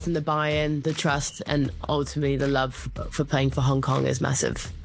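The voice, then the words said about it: South African accent. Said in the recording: “your stint in South Africa ... I can hear the accent. ... South African roots”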